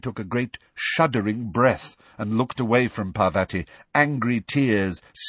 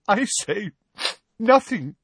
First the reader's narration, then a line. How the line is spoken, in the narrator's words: choked